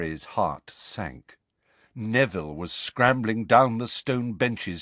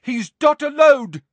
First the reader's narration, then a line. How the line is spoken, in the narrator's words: shouted a voice from above them